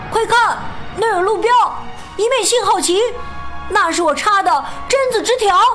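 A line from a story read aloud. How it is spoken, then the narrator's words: Sudden loud shout. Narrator (Chinese): 突然，毛鲁斯大声喊道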